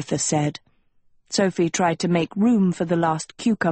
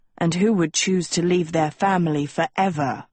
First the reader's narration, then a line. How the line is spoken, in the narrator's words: Agatha snorted